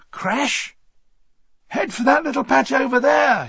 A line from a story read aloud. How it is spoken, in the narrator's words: he shouted